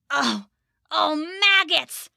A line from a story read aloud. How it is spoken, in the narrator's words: the goblin cried